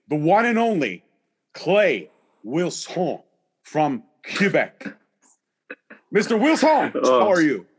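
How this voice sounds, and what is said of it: Put-on accent, done well. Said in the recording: “I appreciate the accent, though. It's really good.”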